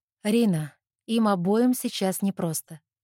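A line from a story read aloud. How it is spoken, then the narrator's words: Calm. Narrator (Russian): спокойно говорит Катя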